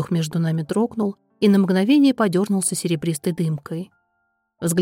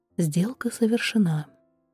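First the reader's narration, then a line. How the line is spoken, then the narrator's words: Quiet. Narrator (Russian): негромко сказала я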